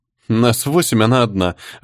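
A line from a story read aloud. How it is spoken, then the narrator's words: Laughing. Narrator (Russian): рассмеялась фея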